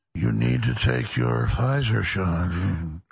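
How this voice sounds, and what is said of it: Mock soothing public-radio announcer voice. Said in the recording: “talk in an NPR voice ... MK Ultra hypnosis ... with those voices”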